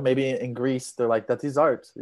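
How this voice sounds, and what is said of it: Put-on Greek accent. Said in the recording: “That was a beautiful Greek accent too ... I just went with an accent.”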